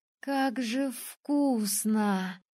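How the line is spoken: Blissful drawl. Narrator (Russian): Блаженно протянула я

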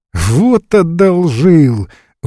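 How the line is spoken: Laughing exclamation, woman. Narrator (Russian): воскликнула, рассмеявшись, Лариса

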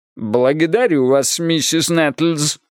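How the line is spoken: Sarcastic. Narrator (Russian): язвительно произнес Бидуэлл

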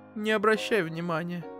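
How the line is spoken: Tearful mother, forced cheer. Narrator (Russian): сквозь слезы выдавила мама улыбку

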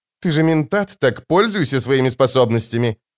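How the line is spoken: Sharp. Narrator (Russian): резко сказала она

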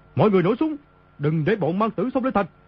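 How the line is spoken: Panicked shout. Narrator (Vietnamese): Y trong lúc hoảng sợ quát lớn

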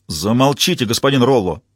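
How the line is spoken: Barking. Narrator (Russian): рявкнул судья

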